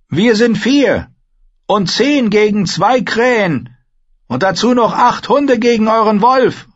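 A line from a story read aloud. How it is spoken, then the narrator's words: Call. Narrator (German): rief sie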